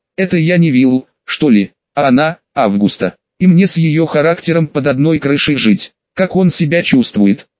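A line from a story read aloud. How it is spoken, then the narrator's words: Plain question. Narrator (Russian): спросила предполагаемая Августа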